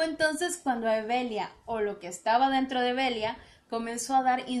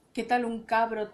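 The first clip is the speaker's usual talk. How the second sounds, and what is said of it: Woman speaking in a man's voice. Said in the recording (Spanish): “sugirió la curandera con voz de hombre”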